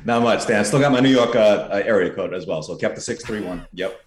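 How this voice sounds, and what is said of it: New York accent. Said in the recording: “still maintains the New York accent, stays true to his roots”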